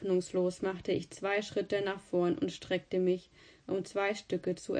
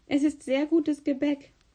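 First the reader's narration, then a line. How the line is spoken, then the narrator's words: Laughing. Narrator (German): sagte lachend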